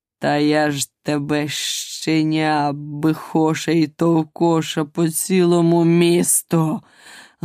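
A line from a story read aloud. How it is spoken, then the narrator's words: Menacing growl, lion. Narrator (Ukrainian): грізно прогарчав лев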